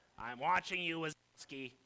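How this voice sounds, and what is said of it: Imitates a cartoon character's voice. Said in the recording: “Roz? ... pretty good imitation.”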